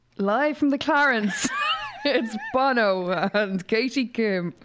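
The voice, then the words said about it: Imitates another person's voice. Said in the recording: “Is that a fantastic impression?”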